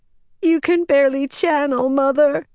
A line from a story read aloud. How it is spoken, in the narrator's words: she wailed